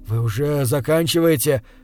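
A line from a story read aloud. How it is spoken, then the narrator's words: Desperate exhale. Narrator (Russian): в отчаянии выдохнул я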